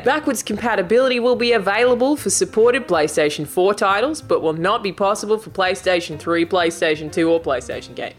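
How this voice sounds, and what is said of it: Convincing Australian accent. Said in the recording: “You do an incredible ... Australian ... accent ... That was a great accent.”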